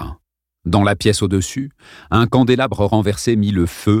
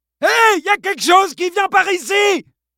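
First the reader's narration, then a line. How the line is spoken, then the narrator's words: Yelling into microphone. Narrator (French): hurla-t-il dans le micro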